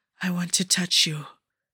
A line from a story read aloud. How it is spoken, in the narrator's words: whispered